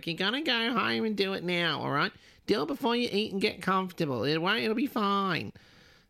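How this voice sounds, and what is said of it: Imitates another person's voice. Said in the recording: “that was a terrible impression. ... sounds so, just like her.”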